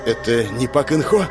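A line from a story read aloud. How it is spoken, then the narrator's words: Breathless exhale. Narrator (Russian): выдохнул он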